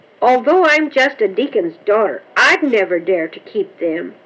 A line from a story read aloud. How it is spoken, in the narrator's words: exclaimed Karen